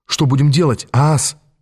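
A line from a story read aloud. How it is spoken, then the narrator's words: Hurried whisper. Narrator (Russian): торопливо прошептал я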